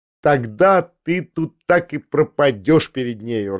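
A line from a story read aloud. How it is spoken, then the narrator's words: Laughing. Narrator (Russian): рассмеялась Лиза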